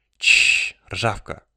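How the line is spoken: Hissing. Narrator (Russian): прошипел субъект

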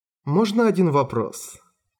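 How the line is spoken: Completely calm. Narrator (Russian): Голос Спор звучал теперь абсолютно спокойно

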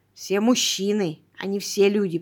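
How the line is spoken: Grumble. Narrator (Russian): проворчала я

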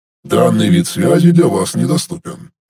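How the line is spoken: Clipped mechanical robot voice. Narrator (Russian): механическим голосом отчеканил робот

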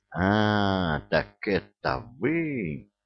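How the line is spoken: Terrible howling voice. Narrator (Russian): Возопил он страшным голосом

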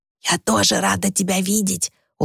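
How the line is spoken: Smiling whisper. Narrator (Russian): улыбаясь, прошептала Люси

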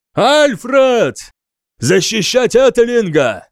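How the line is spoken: Shouting. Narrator (Russian): крикнул я

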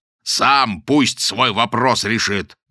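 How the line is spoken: Loud barking shout. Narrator (Russian): гаркнул Модест

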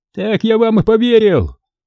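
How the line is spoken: Shouting through window. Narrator (Russian): заорал кто-то с той стороны окна

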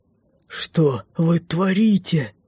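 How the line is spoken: Strained desperate breath. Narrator (Russian): Выдохнул его величество, отчаянным усилием

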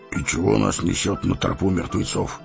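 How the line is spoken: Muttered to himself. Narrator (Russian): пробормотал он, будто толкуя сам с собой

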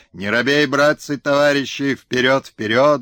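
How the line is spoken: Loud shouting. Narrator (Russian): громко выкрикивал Чика

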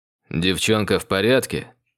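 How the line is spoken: Cold question. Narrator (Russian): холодно уточнил он

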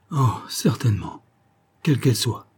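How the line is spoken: Woman sighing deeply. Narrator (French): fit-elle avec un profond soupir

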